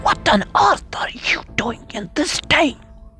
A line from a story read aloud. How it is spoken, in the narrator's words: whispered